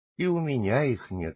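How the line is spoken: Sad old man. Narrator (Russian): сказал добрый старичок печальным тоном

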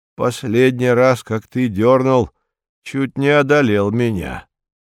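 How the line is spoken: Plain. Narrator (Russian): говорит братец-черепаха

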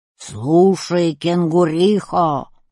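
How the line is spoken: Roaring bear. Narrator (Russian): проревел медведь

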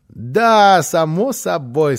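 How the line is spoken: Child laughing heartily. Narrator (Russian): сказал малыш и так расхохотался

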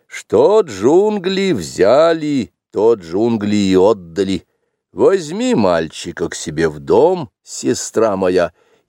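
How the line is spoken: Solemn, rich villager. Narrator (Russian): один из первых деревенских богачей, и потому он произнес торжественно

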